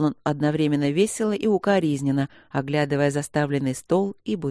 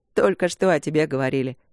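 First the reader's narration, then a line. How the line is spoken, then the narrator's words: Chuckling. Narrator (Russian): хохотнул Март от окна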